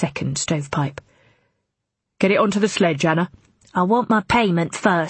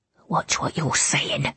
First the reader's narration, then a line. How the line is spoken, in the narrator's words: she mutters, almost inaudibly